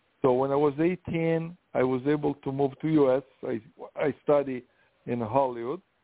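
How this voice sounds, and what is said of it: Italian accent. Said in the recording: “I'm from Italy, that's why the accent.”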